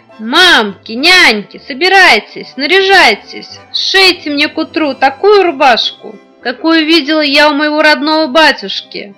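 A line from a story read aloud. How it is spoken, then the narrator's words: Shouted. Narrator (Russian): Василиса Премудрая крикнула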